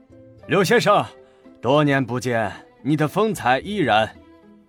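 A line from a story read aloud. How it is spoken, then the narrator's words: Smiling greeting, halting Chinese. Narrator (Chinese): 川岛繁野面带微笑，用不太流利的汉语寒暄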